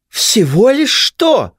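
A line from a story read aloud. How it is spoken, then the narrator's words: Nearly shrieking. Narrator (Russian): едва не взвизгнула Хелена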